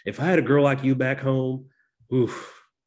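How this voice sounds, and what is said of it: Put-on Kentucky accent. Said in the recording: “this is going to be a very bad Dan Stevens Kentucky accent impression ... that was not a bad Dan Stevens ... I think it was a pretty decent”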